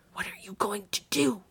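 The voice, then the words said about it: Hoarse whisper. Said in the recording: “he whispered hoarsely.”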